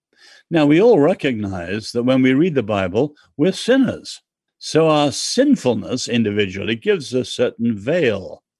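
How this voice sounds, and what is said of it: English accent. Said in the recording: “I'm English. ... I like your accent.”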